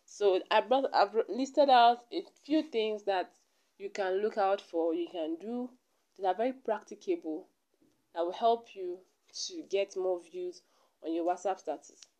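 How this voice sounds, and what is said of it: Voice altered from illness. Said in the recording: “my voice is a little bit I don't know how to explain this type of voice, but it's not my real voice... I was a little bit under the weather”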